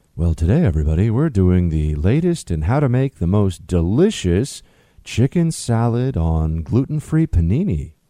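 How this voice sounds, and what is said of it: NPR-style radio host voice. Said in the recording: “more NPR voice”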